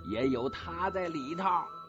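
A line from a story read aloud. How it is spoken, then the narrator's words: Shouting. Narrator (Chinese): 方家骥指定了叫着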